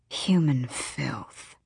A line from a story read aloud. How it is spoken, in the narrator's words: the demon hissed